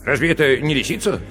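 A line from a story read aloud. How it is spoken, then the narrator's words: Plain question. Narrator (Russian): спросил Пух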